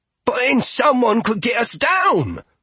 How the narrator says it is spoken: Paltrow said altogether too loudly for Gustav's taste

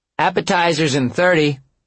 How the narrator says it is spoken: Avery called out

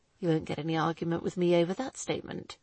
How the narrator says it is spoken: he muttered darkly

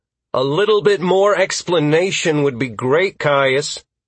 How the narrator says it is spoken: called out impatiently

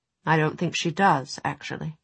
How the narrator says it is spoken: Will said, but rather quietly, so Tessa doubted Mortmain could hear him

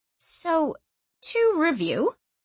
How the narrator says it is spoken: she said slowly

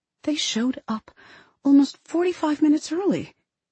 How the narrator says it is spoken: Grace says to me in a whisper

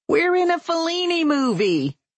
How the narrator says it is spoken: Susan shouts, but no one hears

